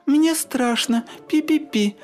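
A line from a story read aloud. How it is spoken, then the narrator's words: Frightened squeak, little mouse. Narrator (Russian): запищал мышонок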